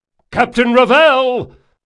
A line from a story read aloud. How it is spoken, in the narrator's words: Another shout rose from below